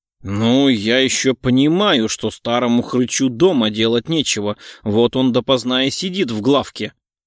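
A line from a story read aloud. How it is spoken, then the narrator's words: Grumbling. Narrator (Russian): проворчал Кричко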